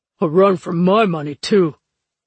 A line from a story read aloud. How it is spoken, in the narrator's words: Levy grumbled